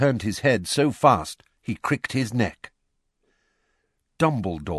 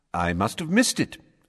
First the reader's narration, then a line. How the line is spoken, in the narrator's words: said Dumbledore cheerfully